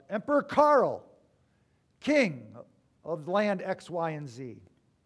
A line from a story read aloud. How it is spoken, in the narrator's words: the people shout